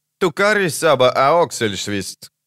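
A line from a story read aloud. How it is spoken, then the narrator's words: Curt remark. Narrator (Russian): бросил он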